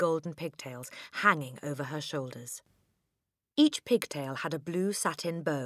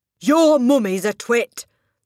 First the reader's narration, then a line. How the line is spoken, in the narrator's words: the Trunchbull bellowed